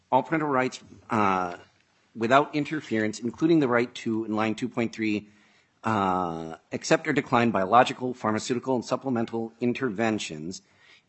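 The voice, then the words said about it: Congested voice from a cold. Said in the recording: “apologize for my voice. ... this is how I sound at the end stage of a cold”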